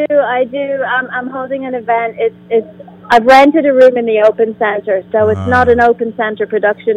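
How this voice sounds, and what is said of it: Irish accent. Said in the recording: “you have a wonderful accent ... I'm from Ireland.”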